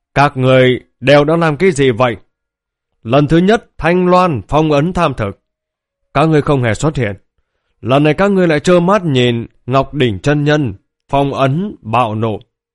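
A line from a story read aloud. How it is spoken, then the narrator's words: Furious roaring. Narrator (Vietnamese): Dạ Vũ phẫn nộ, gầm thét kêu lên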